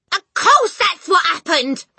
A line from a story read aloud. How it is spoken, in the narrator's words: the mother cried